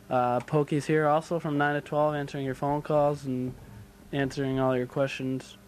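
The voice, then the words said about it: Flat monotone delivery. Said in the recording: “my monotone voice, don't fall asleep”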